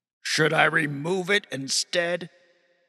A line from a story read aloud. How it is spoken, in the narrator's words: he boomed